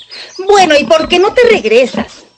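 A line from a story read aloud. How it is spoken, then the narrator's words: Shouted. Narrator (Spanish): gritó Cochinito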